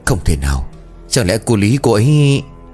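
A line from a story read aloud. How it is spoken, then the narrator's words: Old man, trembling, stammering. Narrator (Vietnamese): Ông Cần bấy giờ run rẩy cả người, ông lắp bắp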